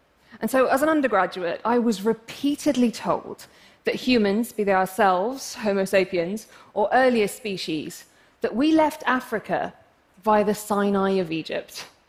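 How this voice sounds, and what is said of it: English accent. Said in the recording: “I'm English, as you can probably tell from my accent”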